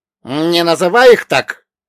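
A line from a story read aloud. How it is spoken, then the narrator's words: Suddenly sharp. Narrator (Russian): неожиданно резко отреагировал Ольга Богданович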